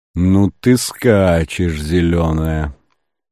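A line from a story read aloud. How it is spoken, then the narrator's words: Muttered. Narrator (Russian): пробормотал Ботвинник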